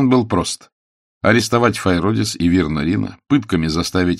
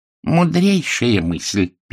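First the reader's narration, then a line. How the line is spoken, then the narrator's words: Squeak. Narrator (Russian): пискнул Калуф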